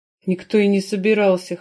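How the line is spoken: Mage's snort. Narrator (Russian): хмыкнул маг

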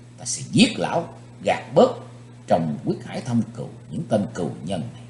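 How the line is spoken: Hissed through clenched teeth. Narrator (Vietnamese): Chí Tôn rít khẽ qua hai hàm răng cắn chặt

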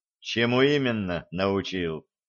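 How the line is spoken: Gloomy question. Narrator (Russian): мрачно спросил Чараныш

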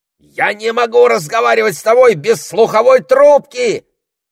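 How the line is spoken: Parrot's shout. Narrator (Russian): крикнул попугай

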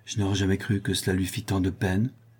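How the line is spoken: Murmur. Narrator (French): murmura Anicet

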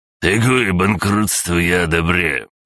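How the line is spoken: Loud gruff bark. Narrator (Russian): гаркнул сутулый

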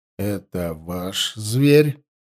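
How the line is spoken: Slow, very clear question. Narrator (Russian): медленно и очень внятно спросил один из стражей границы

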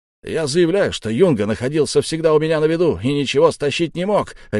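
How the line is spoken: Furious bark. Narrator (Russian): рявкнул взбешенный Яки

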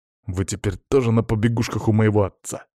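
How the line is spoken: Snapping, boy. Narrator (Russian): огрызнулся пацан

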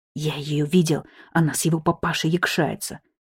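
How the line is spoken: Quiet mutter. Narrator (Russian): негромко буркнул дружку Вячин

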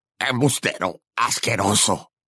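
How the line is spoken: Snapped retort. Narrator (Spanish): le espetó Selwyn

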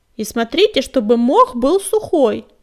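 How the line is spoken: Grumbling. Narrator (Russian): проворчал им вслед безух

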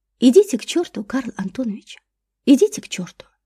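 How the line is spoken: Soft and kind. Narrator (Russian): Мягко, по-доброму произнесла Катя

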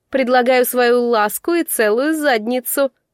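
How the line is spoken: Loud answer. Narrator (Russian): громко ответила Фея

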